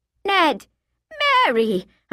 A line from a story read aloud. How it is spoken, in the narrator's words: I crowed a little too cheerfully